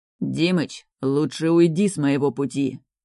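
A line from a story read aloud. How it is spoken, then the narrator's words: Menacing growl. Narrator (Russian): Грозно сверкая глазами, рычит Артем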